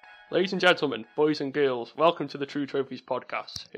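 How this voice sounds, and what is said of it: Potteries English accent. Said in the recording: “my terrible Potteries accent”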